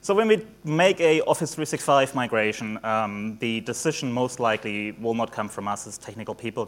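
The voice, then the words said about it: Mixed German, New Zealand, Australian accent. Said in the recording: “I got a bit of a mixed accent. Originally from Germany, moved to New Zealand in 2005, then went to Asia... mixed up my accent a little bit, and now Australian”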